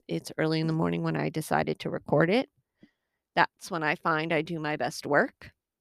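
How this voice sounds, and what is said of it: Slightly hoarse voice. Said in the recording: “my voice sounds a little hoarse.”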